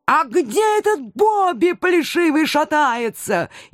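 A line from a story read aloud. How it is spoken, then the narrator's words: Hysterical yelling. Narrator (Russian): истерично орал профессор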